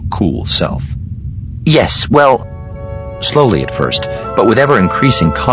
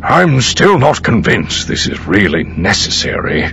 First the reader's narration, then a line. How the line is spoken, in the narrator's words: Pelion grumbled